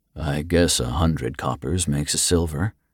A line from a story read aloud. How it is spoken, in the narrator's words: he murmured